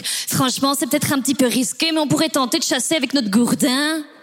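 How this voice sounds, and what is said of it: Put-on Belgian accent. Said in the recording (French): “j'imagine avec l'accent belge”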